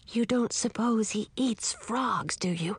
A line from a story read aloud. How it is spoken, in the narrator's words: whispered